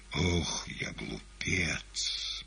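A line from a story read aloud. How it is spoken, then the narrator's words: Anguished muttering. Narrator (Russian): бормотал он, в душевной боли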